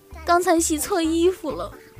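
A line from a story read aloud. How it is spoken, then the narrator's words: Mournful. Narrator (Chinese): 他哭丧着脸对我说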